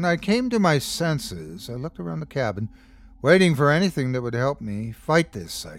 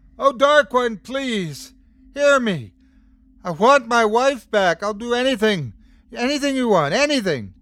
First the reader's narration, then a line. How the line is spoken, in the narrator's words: he started yelling